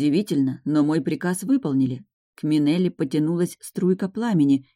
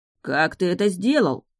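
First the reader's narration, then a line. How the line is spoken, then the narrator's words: Indignant exclamation. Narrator (Russian): возмущенно воскликнул Берт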